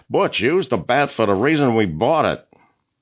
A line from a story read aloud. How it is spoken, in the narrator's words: Al shouted across the field